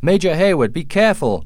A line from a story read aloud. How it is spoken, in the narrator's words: cried Hawkeye